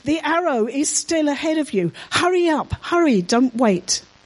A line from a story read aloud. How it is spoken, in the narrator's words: Jonathan shouted